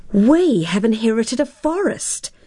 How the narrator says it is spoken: cried Tara, copying her father's astonished cry

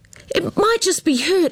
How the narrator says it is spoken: Amber cried

